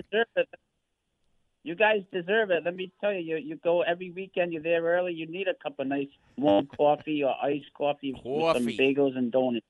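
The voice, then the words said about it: Rhode Island accent. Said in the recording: “what a beautiful Rhode Island accent you have”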